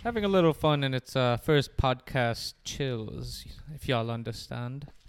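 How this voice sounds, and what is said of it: Put-on English accent, poorly done. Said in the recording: “I'm even doing my English accent, which sounds really stupid.”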